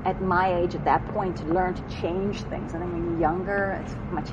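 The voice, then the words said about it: Strong non-American accent. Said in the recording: “as you can hear, I have a, a pretty strong accent... you have a nice accent, by the way... Are you American?”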